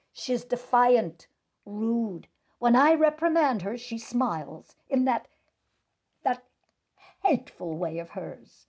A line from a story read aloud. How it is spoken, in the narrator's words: The girl's vice principal blurted out